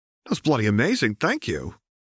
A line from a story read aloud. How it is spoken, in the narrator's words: Anna giggled